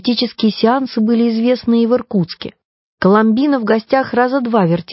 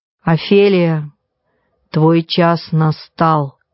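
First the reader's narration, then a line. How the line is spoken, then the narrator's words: Deep resonant voice. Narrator (Russian): глубоким звучным голосом произнес председательствующий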